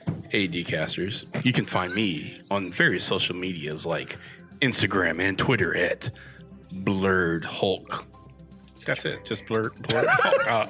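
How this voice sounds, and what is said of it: Smooth radio announcer voice. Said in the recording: “I just want to get in my announcer voice ... When you do that voice, man, like, I think you're about to like announce some slow jams here on Power 106.”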